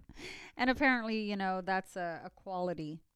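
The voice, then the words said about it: Sarcastic tone. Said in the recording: “Being sarcastic.”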